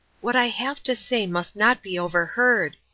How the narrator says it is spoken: he whispered

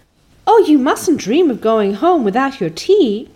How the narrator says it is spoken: cried Anne in distress

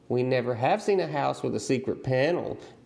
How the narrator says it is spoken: June Star shrieked

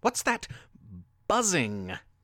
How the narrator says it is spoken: DT asked nervously

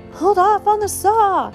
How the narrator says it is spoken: Dave yelled

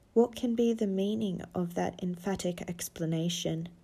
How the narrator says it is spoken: cried

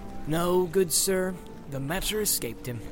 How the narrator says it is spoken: answered Merry gravely

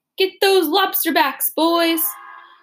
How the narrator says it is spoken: Crowds of people cheered as we went by, shouting

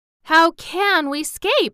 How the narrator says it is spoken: asked Dorothy nervously, for an unseen danger is always the hardest to face

